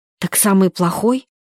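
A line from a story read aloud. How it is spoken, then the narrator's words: Whispered question. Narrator (Russian): шепотом спросила Варя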